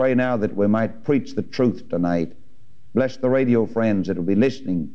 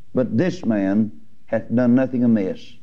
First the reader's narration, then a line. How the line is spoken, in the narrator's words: the thief said